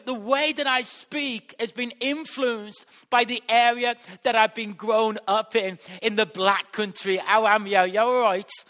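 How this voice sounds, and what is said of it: Black Country English accent. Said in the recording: “I've got a very eloquent accent, and it's because where I was brought up in West Bromwich. And that has influenced my accent.”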